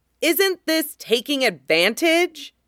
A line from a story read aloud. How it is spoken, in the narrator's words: Qinghua yelled